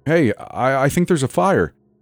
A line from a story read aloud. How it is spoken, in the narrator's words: Henry exclaimed